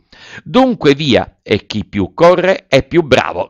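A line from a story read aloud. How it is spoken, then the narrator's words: Shouting. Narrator (Italian): gridò Pinocchio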